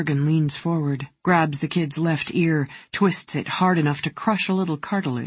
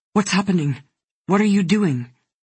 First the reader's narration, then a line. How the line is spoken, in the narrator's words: her brother says anxiously